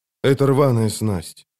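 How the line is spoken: Lifeless voice. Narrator (Russian): безжизненным голосом проговорил он

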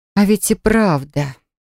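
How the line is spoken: Suspicious drawl. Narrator (Russian): с подозрением протянул я

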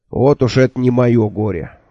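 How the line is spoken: Snort. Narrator (Russian): фыркнул Джуфин

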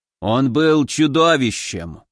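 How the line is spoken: Gloomy old man. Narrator (Russian): мрачно сказал бородатый старик

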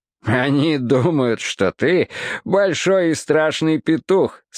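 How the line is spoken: Laughing. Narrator (Russian): смеялся цирюльник

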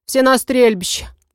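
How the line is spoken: Curt grumble. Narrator (Russian): буркнула она

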